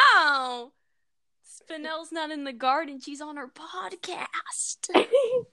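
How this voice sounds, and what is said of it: Usual voice. Nothing is said of it.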